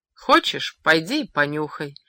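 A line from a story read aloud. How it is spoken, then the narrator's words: Calm advice. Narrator (Russian): спокойно посоветовал ему Гасан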